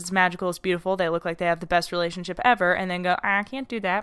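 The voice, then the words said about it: Talking very fast. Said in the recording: “I'm talking so fast.”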